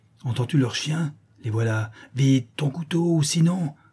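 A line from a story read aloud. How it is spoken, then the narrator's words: Threatening exclamation. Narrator (French): s'écria la Chouette d'un air menaçant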